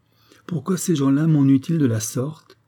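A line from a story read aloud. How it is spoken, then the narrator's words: Impatient exclamation. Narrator (French): s'écria-t-elle avec impatience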